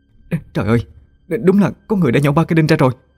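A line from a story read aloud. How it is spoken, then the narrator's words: Terrified stammering woman. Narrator (Vietnamese): Bà Nguyệt kinh hãi lắp bắp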